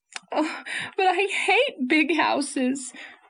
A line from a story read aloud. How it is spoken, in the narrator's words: sobbed Anne